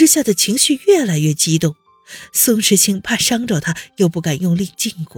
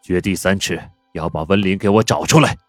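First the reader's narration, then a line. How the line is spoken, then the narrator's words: Stern command. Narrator (Chinese): 他 厉声的吩咐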